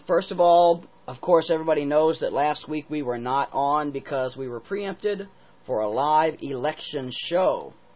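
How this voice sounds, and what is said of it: Slightly off, unwell-sounding voice. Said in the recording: “my voice is a little off today. I've been sick.”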